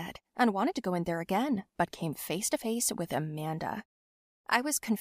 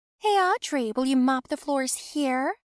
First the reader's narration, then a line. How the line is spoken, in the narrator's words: she asked loudly